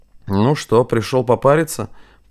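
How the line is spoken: Drowsy grumble. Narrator (Russian): проворчал он, разомлевший от жары и пара

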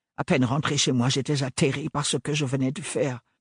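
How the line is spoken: Mumbling. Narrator (French): marmonna-t-il

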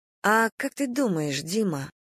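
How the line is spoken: Soft question. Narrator (Russian): мягко спросила Надя

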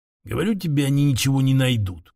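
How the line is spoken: Grumble. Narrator (Russian): проворчал первый

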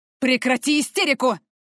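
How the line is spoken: Man barking sharply. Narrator (Russian): рявкнул мужчина

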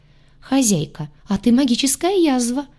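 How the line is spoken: Chuckling. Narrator (Russian): хохотнул гадюша

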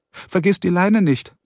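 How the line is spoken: Calling from another room. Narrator (German): rief Carrie aus der Küche

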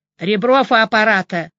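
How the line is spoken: Booming deep bass. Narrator (Russian): прогремел густой бас

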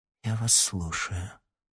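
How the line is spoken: Barely audible. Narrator (Russian): еле слышно произнесла Белохвостикова

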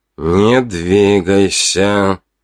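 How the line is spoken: Hissed through teeth. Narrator (Russian): процедил он сквозь зубы

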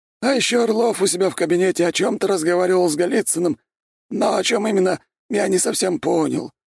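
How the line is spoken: Hurried breathless exhale. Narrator (Russian): выдохнул Градовский последнюю новость, чтобы уложиться в минуту

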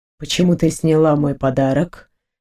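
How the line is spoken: Gloomy question. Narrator (Russian): спросил, мрачно

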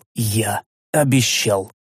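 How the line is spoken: Quiet. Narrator (Russian): тихо сказал

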